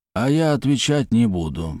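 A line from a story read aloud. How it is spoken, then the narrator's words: Grumbling mutter. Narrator (Russian): буркнул Испольнов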